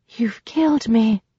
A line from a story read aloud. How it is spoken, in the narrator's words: breathed